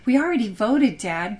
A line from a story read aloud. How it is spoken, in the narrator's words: cried Emma, his elder daughter